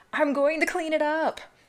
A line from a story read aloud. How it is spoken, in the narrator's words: Jane starts yelling